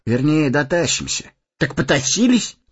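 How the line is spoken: Forced cheerful exclamation. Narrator (Russian): нарочито бодро воскликнул Сэмми

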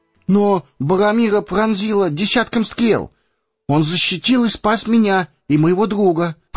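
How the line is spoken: Faltering babble. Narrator (Russian): пролепетал Пипин

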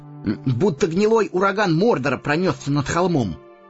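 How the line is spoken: Through gritted teeth. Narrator (Russian): процедил сквозь зубы Сэмми

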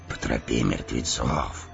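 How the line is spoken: Whisper. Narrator (Russian): прошептал Эомер

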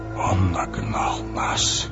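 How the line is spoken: Whisper. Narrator (Russian): прошептал Гэндальф

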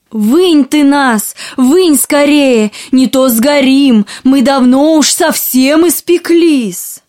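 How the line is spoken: Shouting. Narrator (Russian): закричали хлебы

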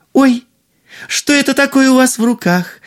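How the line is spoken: Exclaimed. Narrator (Russian): воскликнула принцесса

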